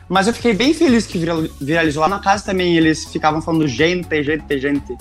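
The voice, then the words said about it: Strong southern Brazilian accent, German-tinged. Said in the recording (Portuguese): “eu sei que eu tenho bastante sotaque ... porque eu sou do Rio Grande do Sul, de uma cidadezinha bem pequena, ainda mais que puxa pro alemão e tudo mais. Eu sei que é forte.”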